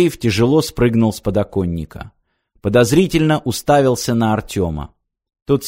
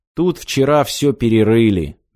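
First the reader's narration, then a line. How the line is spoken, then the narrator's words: Gloomy. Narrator (Russian): мрачно сказал Киреев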